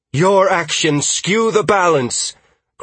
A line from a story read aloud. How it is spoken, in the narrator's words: Creativity shouted